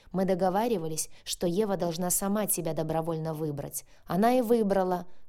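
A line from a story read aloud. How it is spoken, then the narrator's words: Barking. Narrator (Russian): рявкнул Максим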